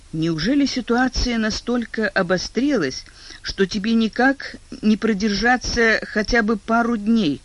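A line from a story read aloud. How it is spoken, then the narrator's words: Pleading moan. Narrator (Russian): с мольбой простонала Элизабет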